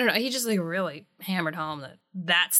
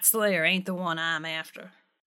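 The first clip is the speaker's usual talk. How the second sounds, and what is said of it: Put-on Southern accent. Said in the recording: “Great southern accent, by the way. You are nailing it.”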